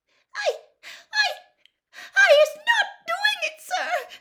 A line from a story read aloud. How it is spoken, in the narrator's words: Winky gasped